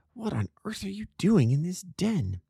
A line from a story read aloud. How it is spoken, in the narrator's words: I whispered